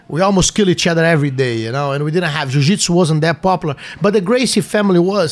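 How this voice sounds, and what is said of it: Foreign, Brazilian-accented English. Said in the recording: “when I left Brazil ... with my accent, they thought I was a dishwasher”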